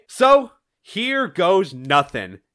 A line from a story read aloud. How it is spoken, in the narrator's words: Tangle shouts as she's about to dive into the gate